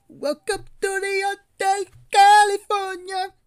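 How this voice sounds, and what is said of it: Singing in put-on Caribbean/Mexican accent. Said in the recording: “it sounded like you had a Mexican accent ... I was going for more like Caribbean cool kind of accent ... it had Mexican vibes, bro. It had mariachi vibes to it”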